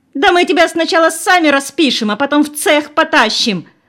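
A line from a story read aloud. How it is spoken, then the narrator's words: Shrieking. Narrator (Russian): визжала беловолосая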